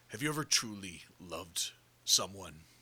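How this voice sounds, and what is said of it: Kingpin impression. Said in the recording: “That's a good impression.”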